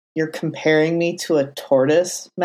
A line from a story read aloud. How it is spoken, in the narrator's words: Matt muttered, his tone incredulous